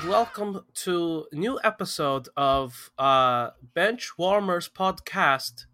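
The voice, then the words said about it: Poor put-on Eastern European accent. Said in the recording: “It was some sort of Eastern European attempt at an accent. It was not good”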